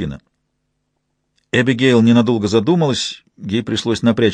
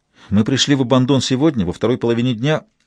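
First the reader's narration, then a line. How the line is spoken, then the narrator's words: Quick explanation, young woman. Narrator (Russian): быстро принялась объяснять девушка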